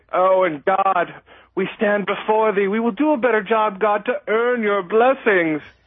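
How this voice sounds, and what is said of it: Scarlett O'Hara-like character voice. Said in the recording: “that was an impression of, but that was good ... Little I don't know, Scarlett O'Hara, a little something ... I'm working on my characters”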